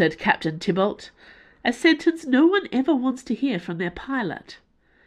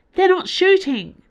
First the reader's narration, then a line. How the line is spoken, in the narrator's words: shouted Magellan, the co-pilot